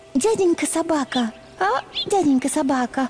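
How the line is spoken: Timid. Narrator (Russian): робко начала она

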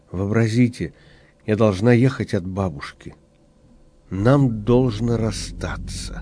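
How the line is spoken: Sad. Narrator (Russian): Глаза Александрины были заплаканы, она сказала печально

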